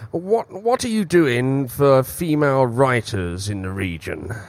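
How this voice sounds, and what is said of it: Put-on strange Australian accent. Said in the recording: “It's a strange Australian accent.”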